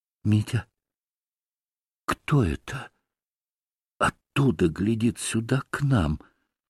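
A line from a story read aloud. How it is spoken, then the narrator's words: Sudden whisper. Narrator (Russian): прошептала она вдруг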